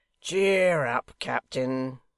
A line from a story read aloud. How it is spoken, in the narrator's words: cried Hugh, when they had roared themselves out of breath